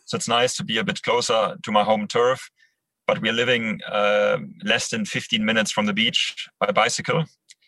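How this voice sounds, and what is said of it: German accent in English. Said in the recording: “I'm from Germany, can't quite hide my accent”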